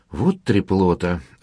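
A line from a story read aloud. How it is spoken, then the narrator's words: Sighing woman. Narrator (Russian): вздохнула его соседка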